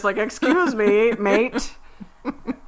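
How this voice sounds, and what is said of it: Poor put-on Australian accent. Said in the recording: “That was the worst Australian accent ... I can't do an Australian accent.”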